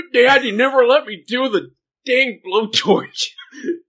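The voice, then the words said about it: Crotchety old man voice. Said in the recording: “It's my Brad impression... He's an old man. Crotchety old man.”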